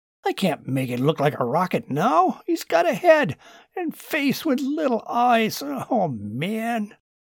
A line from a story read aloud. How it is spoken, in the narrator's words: Martin had to chuckle